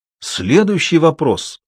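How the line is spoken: Irritated sarcasm. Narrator (Russian): раздраженно съязвил журналист

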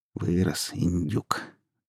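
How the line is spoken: Quiet, chuckling. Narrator (Russian): тихонько говорила она, посмеиваясь

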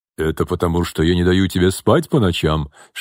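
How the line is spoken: Joking deep bass. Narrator (Russian): шутливо пробасил Артем

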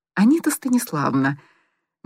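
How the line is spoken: Soft coaxing. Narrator (Russian): начал мягко подкрадываться Коля

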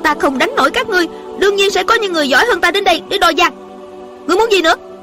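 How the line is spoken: Angry young woman. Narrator (Vietnamese): Thiếu nữ giận dữ nói

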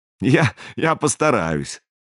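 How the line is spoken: Short laugh. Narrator (Russian): хохотнул Бьярни

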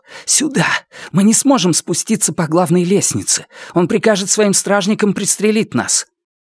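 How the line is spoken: Whispered. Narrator (Russian): Раскол прошептал

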